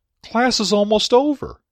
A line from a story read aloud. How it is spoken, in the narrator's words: I almost blurted out